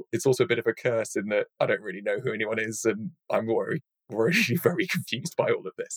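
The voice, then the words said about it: British accent. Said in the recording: “you got the British accent”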